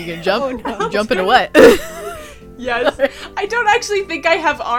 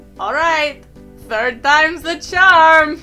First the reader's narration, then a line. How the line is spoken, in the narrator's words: yell down